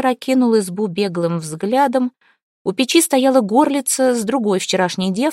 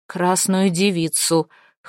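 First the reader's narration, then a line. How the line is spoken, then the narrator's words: Hoarse. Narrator (Russian): хрипло ответил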